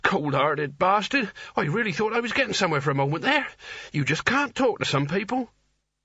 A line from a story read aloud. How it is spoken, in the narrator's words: he wheezed